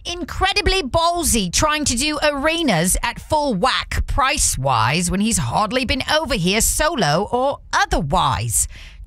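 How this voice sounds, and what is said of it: Put-on accent reading a comment. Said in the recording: “I can tell that I need to speak this comment in an accent.”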